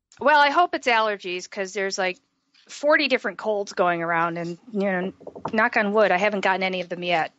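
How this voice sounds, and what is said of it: Froggy, slightly hoarse voice. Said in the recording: “my voice sounds a little froggy. I've got a little bit of a sore throat ... voice sounds a little bit different today”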